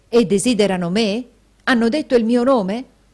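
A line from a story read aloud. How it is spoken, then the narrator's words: Plain. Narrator (Italian): chiese Newman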